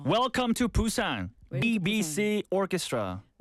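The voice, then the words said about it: Very strong Korean accent. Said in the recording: “With the Korean, very, very strong Korean accent... Pretty Busan accent.”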